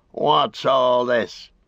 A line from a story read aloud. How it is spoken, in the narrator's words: he snarled